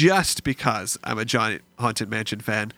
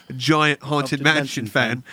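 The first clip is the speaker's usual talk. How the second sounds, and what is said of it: Sudden put-on accent. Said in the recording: “If all of a sudden I had an accent there.”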